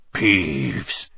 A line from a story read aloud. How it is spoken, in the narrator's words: he said in a hoarse whisper